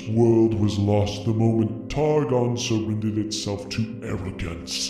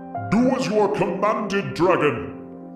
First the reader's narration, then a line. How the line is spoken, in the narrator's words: this Pantheon shouts